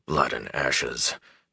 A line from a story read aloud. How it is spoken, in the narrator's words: Tom muttered